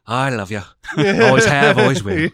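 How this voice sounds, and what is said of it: Put-on Scottish accent. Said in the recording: “a pretty good Scottish brogue ... do that accent”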